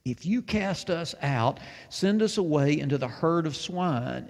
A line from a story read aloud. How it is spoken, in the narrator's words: the demons begged him